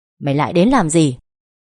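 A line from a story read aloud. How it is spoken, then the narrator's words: Sharp shout. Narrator (Vietnamese): Tiếng quát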